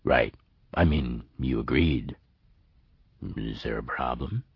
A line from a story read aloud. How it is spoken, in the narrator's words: His voice trailed off